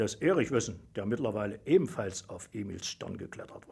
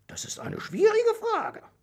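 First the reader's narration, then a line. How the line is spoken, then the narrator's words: Squeaky, thoughtful. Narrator (German): piepste das Mäusel nachdenklich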